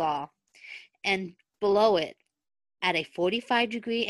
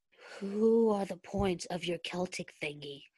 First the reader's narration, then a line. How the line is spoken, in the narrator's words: Stiles asked softly